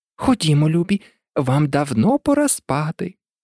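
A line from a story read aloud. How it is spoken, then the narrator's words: Trembling call. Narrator (Ukrainian): А канарка покликала своїх діток тремтячим голосом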